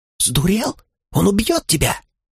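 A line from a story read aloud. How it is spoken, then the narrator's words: Catlike hiss. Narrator (Russian): Словно кошка зашипела Анилаэль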